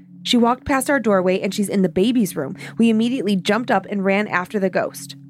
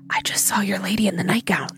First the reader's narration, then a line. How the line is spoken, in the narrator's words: whispered